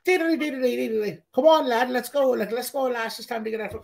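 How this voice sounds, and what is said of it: Bad put-on Irish accent. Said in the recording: “That's a terrible accent. ... Like, you sound like Conor fucking McGregor.”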